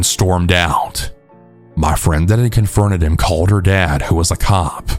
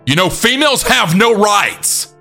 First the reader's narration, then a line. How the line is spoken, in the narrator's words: He then actually started screaming at her